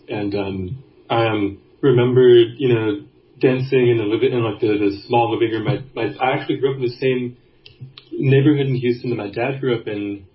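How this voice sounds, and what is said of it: Texas accent. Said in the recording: “I'm from Houston, Texas. You can maybe hear it in my voice.”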